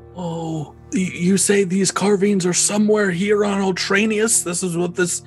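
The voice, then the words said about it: Elderly character voice. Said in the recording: “I'll do my old voice.”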